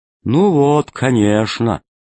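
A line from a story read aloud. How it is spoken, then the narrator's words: Gloomy. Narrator (Russian): сказал мрачно Зеленый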